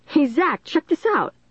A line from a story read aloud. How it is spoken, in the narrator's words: Dennis cried